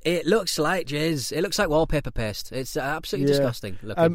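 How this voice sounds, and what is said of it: Northeastern English accent. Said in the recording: “it really fits in my accent ... I'm surprised it's not a northeastern delicacy”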